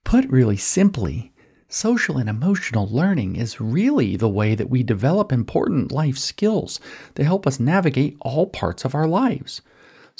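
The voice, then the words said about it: Saccharine, overly nice presenter voice. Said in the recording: “my SEL representative voice ... it's saccharine. It's disgusting. They're being nice”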